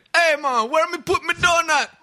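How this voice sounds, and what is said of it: Put-on Jamaican accent. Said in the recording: “we made up a character about this gluttonous Jamaican character”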